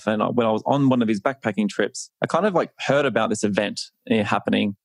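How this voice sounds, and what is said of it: Australian accent. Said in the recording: “as you can tell by my accent, this is not a nasal infection. This is an Australian accent.”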